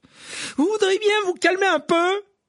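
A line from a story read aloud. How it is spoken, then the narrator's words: Shouting. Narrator (French): cria-t-il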